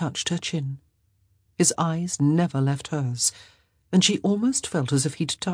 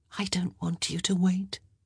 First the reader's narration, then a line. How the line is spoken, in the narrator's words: she whispered